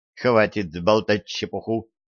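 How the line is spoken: Sharp interruption. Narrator (Russian): резко оборвала его Лорелли

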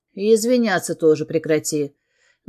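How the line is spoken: Rough interrupting man. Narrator (Russian): Грубо обрывает меня мужчина

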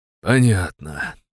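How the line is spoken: Sighing. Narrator (Russian): вздохнул я

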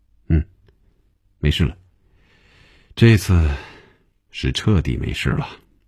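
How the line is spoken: Laughing sigh, snort. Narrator (Chinese): 红军笑了，叹了口气，从鼻子里哼了一声说

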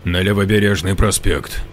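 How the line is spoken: Plain. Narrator (Russian): ответил следователь

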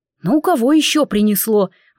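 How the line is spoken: Indignant thought. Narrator (Russian): возмущенно подумал барон

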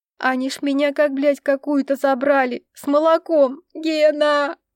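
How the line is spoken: Sobbing. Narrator (Russian): рыдала Таня

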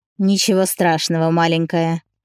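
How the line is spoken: Malicious smirk. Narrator (Russian): усмехнулся зло

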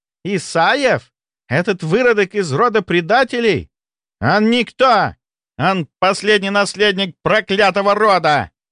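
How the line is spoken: Barely restrained furious yelling. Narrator (Russian): заорал Дугальд, с трудом сдерживаясь

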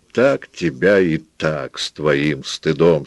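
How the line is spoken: Rich chest voice. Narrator (Russian): сказала Пилар своим красивым грудным голосом

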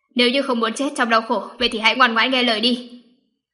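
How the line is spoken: Cold threat. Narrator (Vietnamese): Mạc Sĩ Trạch mở miệng lạnh lùng uy hiếp

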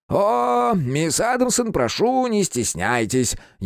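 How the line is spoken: Sarcastic, smiling. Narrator (Russian): язвительно улыбнулся Грумс

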